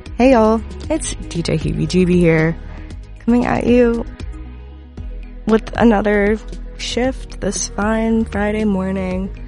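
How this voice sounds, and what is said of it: Sick, slightly congested voice. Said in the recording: “If you can't tell by my voice, I'm slightly sick ... my voice. My sick voice”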